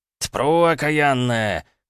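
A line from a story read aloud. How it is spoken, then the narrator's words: Wild straining yell. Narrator (Russian): заорал он дурным голосом, с силой упираясь сапогами в землю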